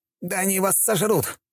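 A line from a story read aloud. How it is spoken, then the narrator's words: Exclaimed. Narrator (Russian): воскликнул он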